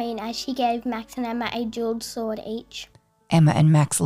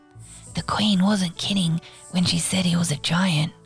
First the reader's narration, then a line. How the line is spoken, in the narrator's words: whispered Max, but not whispered quietly enough